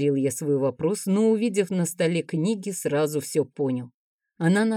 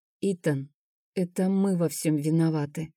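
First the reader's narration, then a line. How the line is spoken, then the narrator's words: Whisper. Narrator (Russian): прошептала Амелия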